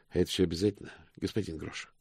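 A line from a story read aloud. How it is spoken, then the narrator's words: Sighing. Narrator (Russian): вздохнул мокрец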